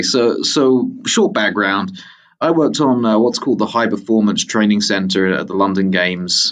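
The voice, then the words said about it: Mixed British-American accent. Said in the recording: “I'm a British American, and the accent is somewhere half between the two ... I hear a little Colorado in there”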